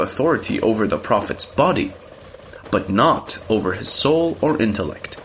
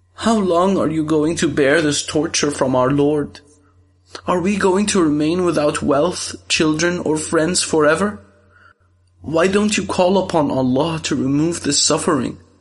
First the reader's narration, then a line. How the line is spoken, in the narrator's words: she cried